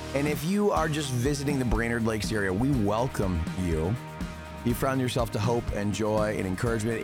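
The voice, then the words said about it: Tired, slightly sore voice. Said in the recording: “I'm a little tired. My voice is a little sore”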